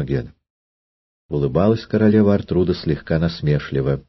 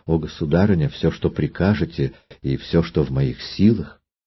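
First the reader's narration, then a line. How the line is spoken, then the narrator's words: Timid and joyful. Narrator (Russian): Имогена робко и радостно сказала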